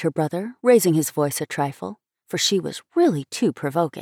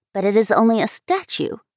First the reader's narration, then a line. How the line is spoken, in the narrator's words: persisted Abby, testily